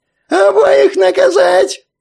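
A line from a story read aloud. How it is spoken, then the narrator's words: Frantic shriek. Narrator (Russian): Совсем уже истошно визжал кальмар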